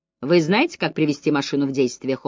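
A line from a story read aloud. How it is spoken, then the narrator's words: Cold question. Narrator (Russian): холодно спросил Вайланд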